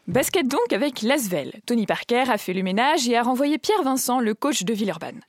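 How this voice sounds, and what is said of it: Put-on Alsatian accent. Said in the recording (French): “à l'alsacienne ... À l'alsacienne, bien sûr ... Je pimente la chronique avec mon accent”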